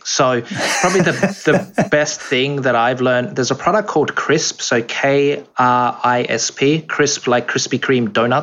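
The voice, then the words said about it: Noticeable non-American accent. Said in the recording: “maybe the accent is going to throw people off”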